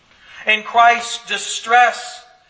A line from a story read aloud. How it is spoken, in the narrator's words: he called out to God